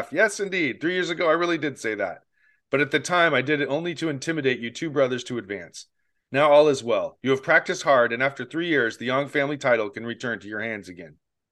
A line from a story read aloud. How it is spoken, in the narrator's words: Chen Shufeng put on an appearance of understanding completely and said with a hearty laugh